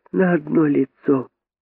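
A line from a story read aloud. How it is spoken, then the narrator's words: Sad young rabbit. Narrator (Russian): сказал крольчонок грустно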